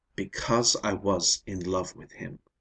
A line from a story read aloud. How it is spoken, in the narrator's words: she said firmly